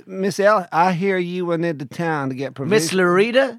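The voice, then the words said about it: Put-on American western accent. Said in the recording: “talk like we're in a western ... Speaking in an American accent.”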